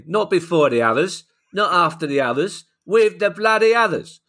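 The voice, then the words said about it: Michael Caine impression. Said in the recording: “I could do a passable Michael Caine.”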